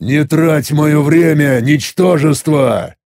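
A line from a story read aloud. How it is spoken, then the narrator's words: Irritated rude growl. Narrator (Russian): Раздраженно прорычав, грубо прервал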